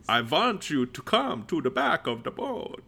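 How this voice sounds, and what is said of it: Imitates another person's voice doing Dracula. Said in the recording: “my impression of Adam Sandler doing an impression of Dracula ... That's perfect. ... That's exactly what he sounds like.”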